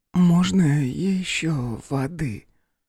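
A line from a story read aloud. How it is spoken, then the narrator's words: Quieter, hoarse. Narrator (Russian): Голос ее стал еще тише и хрипел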